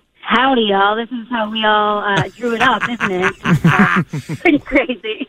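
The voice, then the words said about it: Put-on Southern accent. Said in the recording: “that old Southern accent thing”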